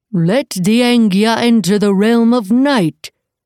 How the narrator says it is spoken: cried a new voice, booming and boastful

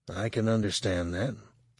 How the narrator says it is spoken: he said quietly

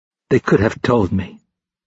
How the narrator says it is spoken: he said in a flat, hurt voice

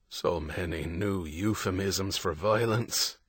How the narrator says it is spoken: Gannon muttered

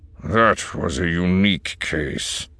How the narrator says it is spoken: Ullaren growled

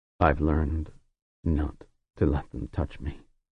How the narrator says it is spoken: he said in a low voice

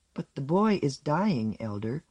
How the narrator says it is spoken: said Rollery in her soft, unyielding voice

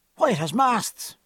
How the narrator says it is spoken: exclaimed

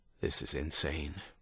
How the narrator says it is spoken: Ruckerman muttered

